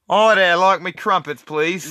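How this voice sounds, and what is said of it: Put-on British accent. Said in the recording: “Do a British voice.”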